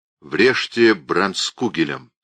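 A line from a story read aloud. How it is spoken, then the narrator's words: Calm command. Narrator (Russian): спокойно велел он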